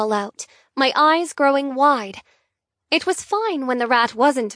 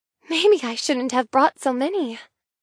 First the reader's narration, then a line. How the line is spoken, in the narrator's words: sigh